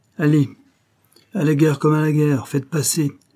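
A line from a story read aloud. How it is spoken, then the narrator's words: Shouting. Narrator (French): s'écria Pinot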